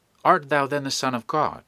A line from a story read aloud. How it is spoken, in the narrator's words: Eagerly catching at this, which was not sufficiently explicit for them, they all said